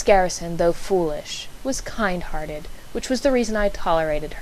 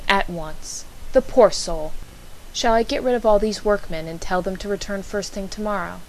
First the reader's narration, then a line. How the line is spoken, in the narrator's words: she said firmly